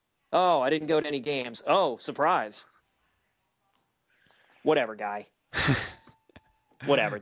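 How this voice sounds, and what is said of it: Impression of an Atlanta sports fan. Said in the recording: “my impersonation of an Atlanta sports fan”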